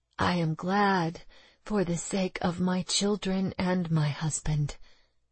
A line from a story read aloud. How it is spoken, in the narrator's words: Catherine whispered